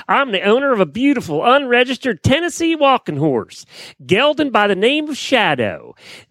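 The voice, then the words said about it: Attempted Southern US accent. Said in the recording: “I was practicing my Southern accent ... much improved”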